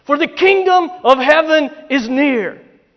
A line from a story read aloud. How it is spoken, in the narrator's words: he bellowed